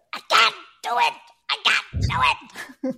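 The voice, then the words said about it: Impression of a small child. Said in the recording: “my little granddaughter ... That's a good impression.”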